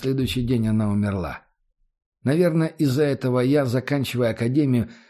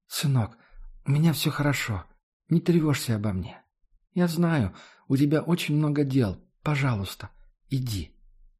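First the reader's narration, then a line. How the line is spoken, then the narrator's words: Faint whisper, mother. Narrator (Russian): Мама могла еле слышно прошептать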